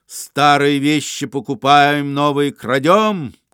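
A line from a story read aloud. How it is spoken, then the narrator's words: Shouting after someone. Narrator (Russian): крикнул Остап вслед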